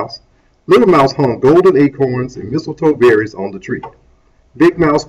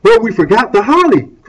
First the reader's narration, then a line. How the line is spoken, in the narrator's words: cried Little Mouse